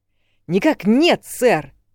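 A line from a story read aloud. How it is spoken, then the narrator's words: Barked reply. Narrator (Russian): рявкнул он в ответ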